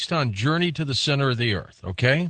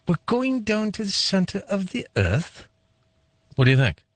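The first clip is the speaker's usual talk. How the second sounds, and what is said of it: James Mason impression, slightly high. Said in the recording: “my James Mason impression ... I think your voice was a tad bit high.”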